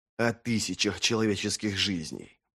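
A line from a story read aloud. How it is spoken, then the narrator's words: Hissed. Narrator (Russian): прошипел Вест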